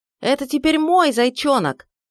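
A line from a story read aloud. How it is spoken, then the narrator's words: Desperate shouting. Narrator (Russian): отчаянно кричал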